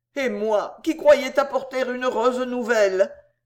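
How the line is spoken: Frightened groan. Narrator (French): gémit le gros homme épouvanté

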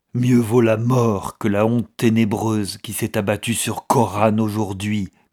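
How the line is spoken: Growling. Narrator (French): grogna-t-il

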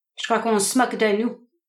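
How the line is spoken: Gruff grumbling. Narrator (French): grommela le Canadien d'un ton bourru

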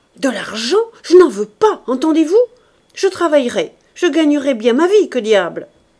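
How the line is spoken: Exasperated shout. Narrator (French): Exaspéré, il cria

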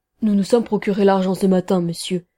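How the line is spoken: Submissive tone. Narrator (French): dit l'un des deux hommes d'un ton soumis

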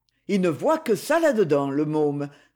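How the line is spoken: Sneering through teeth. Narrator (French): ricana Maxence entre ses dents

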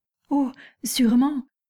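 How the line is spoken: Exclaiming. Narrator (French): s'écria Mademoiselle Bourienne

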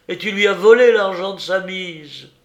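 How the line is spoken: Shouting. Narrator (French): cria Joseph

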